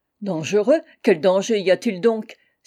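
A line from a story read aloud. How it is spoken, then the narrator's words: Exclaiming officer. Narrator (French): s'écria le lieutenant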